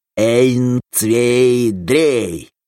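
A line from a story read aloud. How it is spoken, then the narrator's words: Nasty fairy-tale wizard voice. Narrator (Russian): Гнусным голосом волшебника из сказки произнес Крайнев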